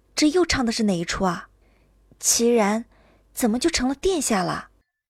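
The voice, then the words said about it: Quiet, hushed question. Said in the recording (Chinese): “小声问道”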